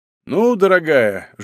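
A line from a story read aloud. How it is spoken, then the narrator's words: Chuckling. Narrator (Russian): Жилкин хохотнул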